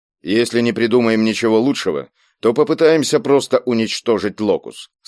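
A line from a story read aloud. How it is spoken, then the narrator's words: Plain. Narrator (Russian): сказал Кийск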